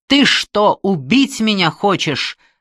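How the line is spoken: Yelled after someone. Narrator (Russian): заорал мне вслед Билли

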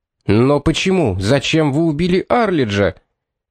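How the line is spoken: Hoarse shout. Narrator (Russian): хрипло выкрикнул Пит

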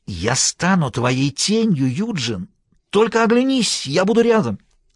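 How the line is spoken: Hiss. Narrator (Russian): Бобби прошипел

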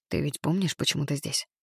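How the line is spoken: Whisper. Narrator (Russian): прошептал я Матильде

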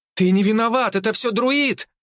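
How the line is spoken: Girl exclaiming. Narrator (Russian): воскликнула одна девушка

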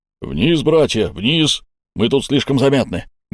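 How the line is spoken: Barked shout. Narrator (Russian): гаркнул Тасбур

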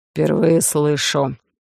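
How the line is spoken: Hoarse, joyless. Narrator (Russian): прохрипел Олаф, и в его голосе я не расслышал особой радости

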